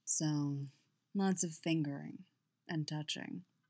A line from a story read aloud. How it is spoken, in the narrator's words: Fenn murmured into her hair